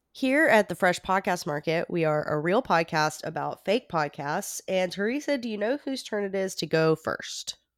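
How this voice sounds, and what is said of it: Voice sounds sick. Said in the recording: “I'm a little bit sick, as you can probably tell from my voice”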